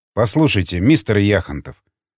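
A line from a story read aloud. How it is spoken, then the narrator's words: Sighing, careful words. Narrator (Russian): вздохнул Реймон, подбирая тщательно слова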